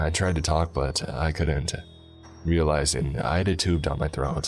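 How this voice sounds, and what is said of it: Usual voice. Nothing is said of it.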